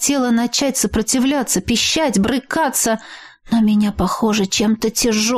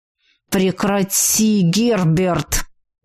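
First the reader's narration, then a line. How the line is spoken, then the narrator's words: Hiss. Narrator (Russian): прошипел Ричард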